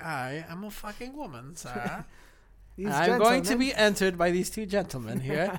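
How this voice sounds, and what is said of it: Proper little old lady voice. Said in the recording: “doing that fucking little voice ... pretending to be like an old lady ... trying to be all proper”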